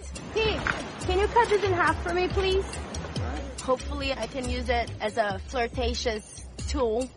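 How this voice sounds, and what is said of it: Strong Brazilian accent. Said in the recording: “I have a very strong Brazilian accent.”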